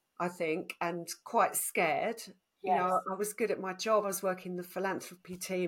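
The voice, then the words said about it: Essex accent. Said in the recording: “Essex accent”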